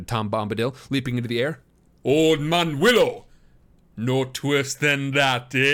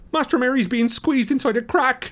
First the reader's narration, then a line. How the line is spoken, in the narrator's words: cried Sam